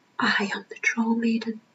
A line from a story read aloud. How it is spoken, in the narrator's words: Opal whispered